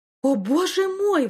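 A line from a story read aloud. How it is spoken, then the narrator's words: Exclaiming. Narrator (Russian): воскликнула Мариса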